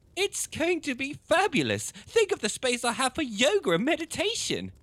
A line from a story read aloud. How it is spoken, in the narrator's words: chirped down the phone